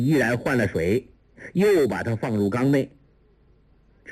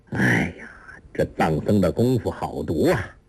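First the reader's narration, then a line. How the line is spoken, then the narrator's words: Sighing. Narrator (Chinese): 叹道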